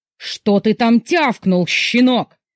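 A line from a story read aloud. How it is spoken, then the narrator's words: Angry roar. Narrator (Russian): гневно взревел папа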